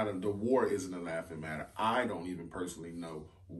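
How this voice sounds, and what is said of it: Usual voice. Nothing is said of it.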